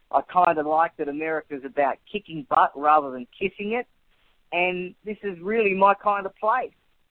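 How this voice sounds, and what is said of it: Australian accent. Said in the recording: “lose the Australian accent ... I'm going to recommend that you lose the Australian accent”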